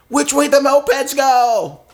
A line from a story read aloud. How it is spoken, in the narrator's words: I'm just yelling at random people on the street